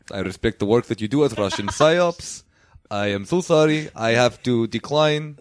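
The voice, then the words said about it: Put-on Russian accent, imitating a politician. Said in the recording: “Oh, that is a nice Russian accent. ... thank you, Vladimir Putin”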